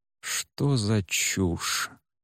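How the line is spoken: Deeply anguished mutter. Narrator (Russian): с глубочайшей тоской пробормотал мастер

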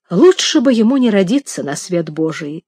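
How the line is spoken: Bitter exclamation. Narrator (Russian): с горечью воскликнул Джордж

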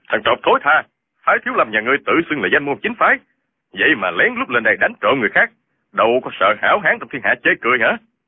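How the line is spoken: Angry. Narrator (Vietnamese): Chu Điên giận dữ nói

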